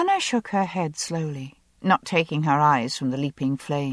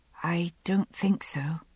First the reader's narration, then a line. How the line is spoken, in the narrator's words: she said softly